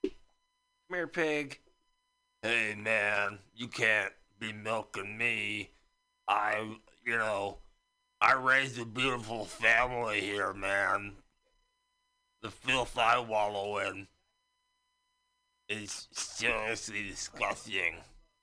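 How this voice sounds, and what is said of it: Comic character voice. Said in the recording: “my impression of the first guy that ever tried to milk a pig”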